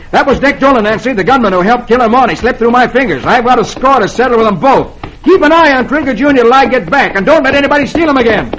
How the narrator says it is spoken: Roy yells

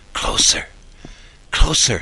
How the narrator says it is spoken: she whispered

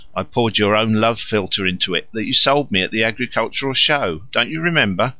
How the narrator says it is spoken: Laughing again, said

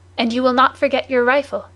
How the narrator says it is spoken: said Barbicane

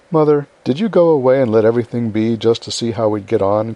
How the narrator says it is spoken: cried Meg, who had had suspicions all day

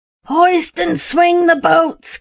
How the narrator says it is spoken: cried the captain

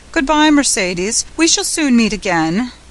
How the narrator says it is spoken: leaning from the coach he called out

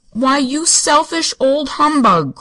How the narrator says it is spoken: cried Uncle John indignantly

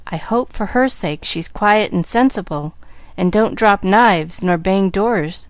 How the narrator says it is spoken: she sighed to Timothy

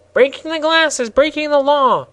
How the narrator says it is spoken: squeaked the gardener angrily

